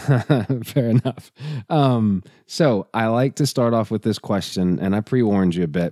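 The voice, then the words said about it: Raspy, hoarse voice. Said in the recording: “my voice is more raspy because everybody in my family, except for my wife and son, decided to get the flu ... the rasp is nice ... you and your raspy voice”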